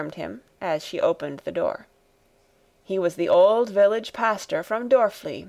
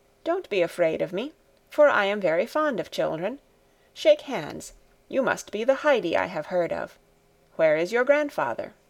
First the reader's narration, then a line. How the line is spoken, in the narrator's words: he said in a kind voice